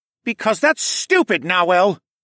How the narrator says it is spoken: Tawa snapped

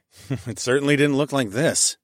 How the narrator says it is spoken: I chuckled

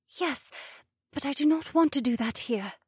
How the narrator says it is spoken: said in a hushed voice that still sounded loud

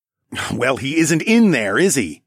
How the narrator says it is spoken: I snorted

